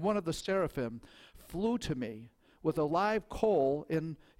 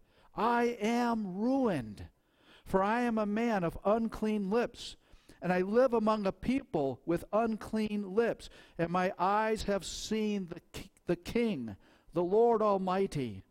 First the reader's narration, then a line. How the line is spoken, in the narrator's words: cried